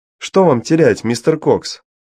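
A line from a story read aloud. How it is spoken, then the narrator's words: Shouting over noise. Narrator (Russian): прокричала Дафна, перекрывая шум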